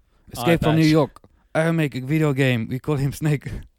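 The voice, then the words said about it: Attempted Japanese accent. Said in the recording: “That's not even a Japanese accent.”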